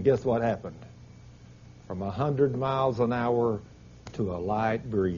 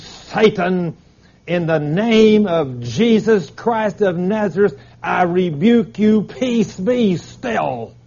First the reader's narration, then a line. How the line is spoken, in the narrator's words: screamed